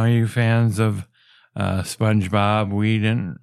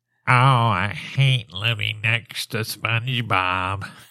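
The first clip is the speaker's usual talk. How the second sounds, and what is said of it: Imitates a cartoon character's voice. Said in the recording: “We're driving Squidward nuts. ... who else can I impersonate?”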